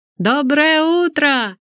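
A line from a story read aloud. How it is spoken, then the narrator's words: Shout. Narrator (Russian): крикнула она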